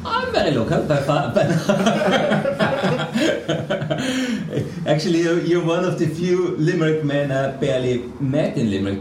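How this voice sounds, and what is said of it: Non-local foreign accent. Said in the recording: “with that accent, then I'm assuming you're not a local man”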